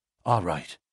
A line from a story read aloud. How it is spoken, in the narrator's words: whispered McMurdo